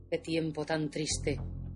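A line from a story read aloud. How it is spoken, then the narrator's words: Murmur. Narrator (Spanish): murmuraba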